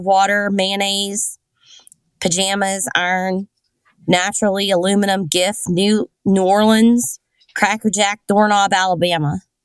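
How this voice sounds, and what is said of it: Pennsyltucky (rural Pennsylvania) accent. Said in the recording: “you got some weird shit going on ... You got like a pencil tucky accent.”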